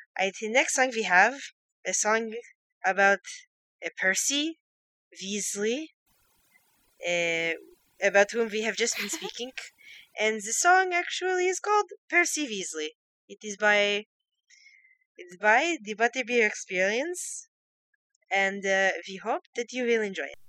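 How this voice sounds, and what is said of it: Put-on accent, inconsistently sustained. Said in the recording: “Should we see how long I can sustain the accent? ... I will speak like this ... I think my accent may change sometimes in the middle”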